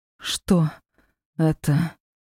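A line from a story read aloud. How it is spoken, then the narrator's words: Hoarse strained rasp. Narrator (Russian): прохрипела пленница, у которой теперь даже говорить получалось с трудом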